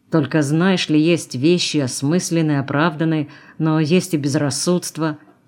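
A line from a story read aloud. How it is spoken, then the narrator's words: Muttering. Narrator (Russian): бормотал он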